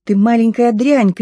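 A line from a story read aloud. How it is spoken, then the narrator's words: Loud shrill trembling scream. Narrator (Russian): крикнула не своим голосом, громким, пронзительным, дрожащим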